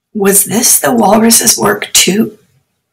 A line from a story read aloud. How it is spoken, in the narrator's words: Rashid murmured to Haroon